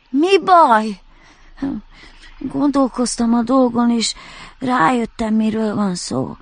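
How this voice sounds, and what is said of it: Slightly congested, nasal character voice. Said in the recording (Hungarian): “Kiabált a felhő kissé náthás hangon.”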